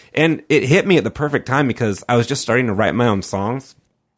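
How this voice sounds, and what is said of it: Nasal, whiny voice. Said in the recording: “I kind of have like a nasally, whiny voice anyway”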